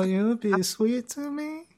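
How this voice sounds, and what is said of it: Impression of Sweet Pea. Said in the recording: “my Sweet Pea impression”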